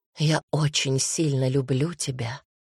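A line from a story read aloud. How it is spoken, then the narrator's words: Whisper. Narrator (Russian): прошептала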